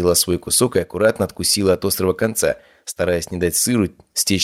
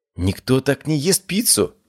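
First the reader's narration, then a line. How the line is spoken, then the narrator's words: Girl's exclamation. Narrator (Russian): воскликнула девушка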